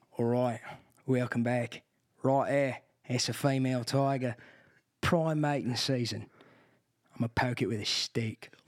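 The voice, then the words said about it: Australian accent, imitates another person's voice. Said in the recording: “Can you do an Australian accent? ... I'm Steve Irwin ... You do good voices.”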